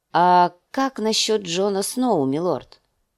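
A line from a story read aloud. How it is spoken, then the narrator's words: Plain. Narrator (Russian): спросил мейстер Лювин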